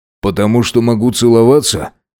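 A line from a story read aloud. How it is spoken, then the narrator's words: Amused snort. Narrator (Russian): хмыкнул он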